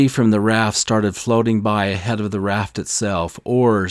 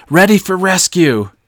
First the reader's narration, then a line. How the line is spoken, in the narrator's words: cried out to the others below